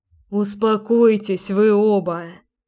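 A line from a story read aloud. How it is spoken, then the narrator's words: Tired. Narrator (Russian): устало сказала я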